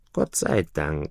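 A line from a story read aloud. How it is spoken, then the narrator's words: Duckling sighing. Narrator (German): seufzte das Entlein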